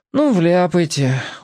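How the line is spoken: Glum agreement. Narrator (Russian): уныло согласился Сушкин

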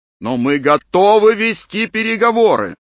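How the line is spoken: Shouting. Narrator (Russian): кричал мистер Томпсон

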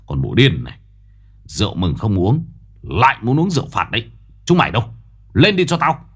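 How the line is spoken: Growling. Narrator (Vietnamese): Ông gầm gừ

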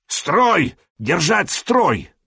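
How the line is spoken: Shouting in a foreign tongue. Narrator (Russian): орал он не по-словенски, а по-ромейски

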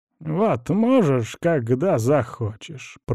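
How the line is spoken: Old man grumbling. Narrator (Russian): проворчал старик

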